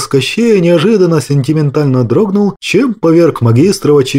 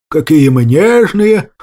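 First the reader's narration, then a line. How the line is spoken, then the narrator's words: Snorted. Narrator (Russian): фыркнул я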